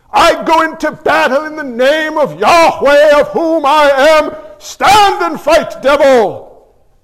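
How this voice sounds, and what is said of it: Put-on mock medieval accent. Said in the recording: “The medieval accent is awesome, isn't it?”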